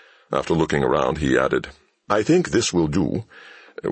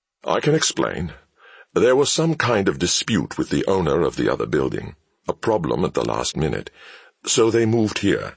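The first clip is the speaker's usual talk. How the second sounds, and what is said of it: Thick British accent. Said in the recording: “spoke up in his thick British accent”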